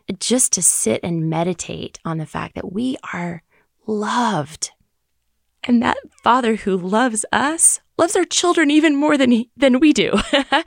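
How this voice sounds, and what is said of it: Emotional, moved, wavering voice. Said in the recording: “it moves me, obviously. You can hear it in my voice. I am moved”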